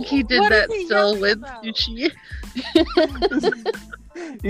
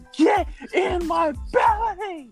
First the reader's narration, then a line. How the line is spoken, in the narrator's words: yells at it saying